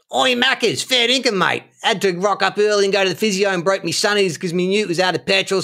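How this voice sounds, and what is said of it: Exaggerated Australian accent. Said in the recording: “my impression of me offering McDonald's to my Australian friend Shane. So I'll do the accents now just to differentiate between the two characters.”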